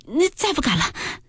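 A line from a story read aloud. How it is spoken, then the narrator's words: Laughing. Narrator (Chinese): 黛玉笑道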